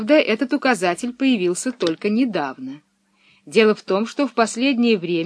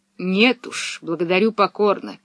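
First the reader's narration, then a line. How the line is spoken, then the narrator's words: Muttering under breath. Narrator (Russian): пробормотал он себе под нос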